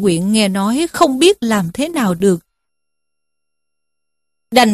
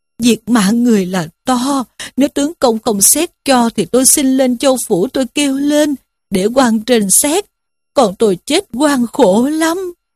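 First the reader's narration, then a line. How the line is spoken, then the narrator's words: Wailing, crying. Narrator (Vietnamese): Diêm Bà rên rỉ khóc lóc mà rằng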